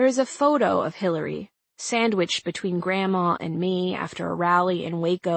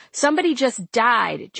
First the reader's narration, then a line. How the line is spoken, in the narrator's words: Jamie, the 08 campaign press wrangler, yelled, the only time I'd ever heard her lose her temper